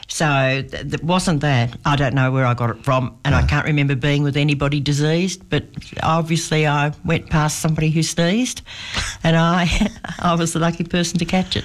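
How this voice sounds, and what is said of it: Thick, congested voice from cold. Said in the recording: “You sound a little bit... I sound a bit thick”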